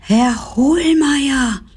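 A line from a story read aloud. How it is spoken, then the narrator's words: Called out. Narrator (German): rief sie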